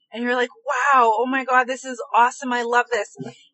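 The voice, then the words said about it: Excited voice, raised pitch. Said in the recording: “listen to my voice. My voice has already like raised in its pitch because I'm thinking about the excitement.”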